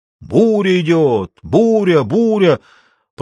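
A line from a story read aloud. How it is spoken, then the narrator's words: Bird shouting. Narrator (Russian): прокричала черная птица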